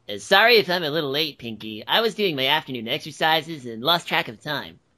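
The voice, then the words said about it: Cartoon pony character voice. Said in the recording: “Dash, ... that's pretty good.”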